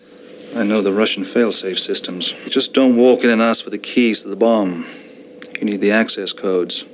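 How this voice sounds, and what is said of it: Transatlantic American-Irish accent. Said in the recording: “Pierce Brosnan's accent baffles me ... Brosnan becomes more and more sort of transatlantic, like American Irish ... it's not just an Irish accent”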